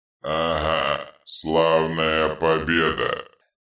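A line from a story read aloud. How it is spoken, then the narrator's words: Hateful grumble. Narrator (Russian): пробурчал Детрит с ненавистью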